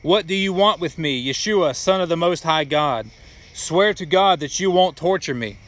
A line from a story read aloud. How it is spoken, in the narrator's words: He shouted at the top of his voice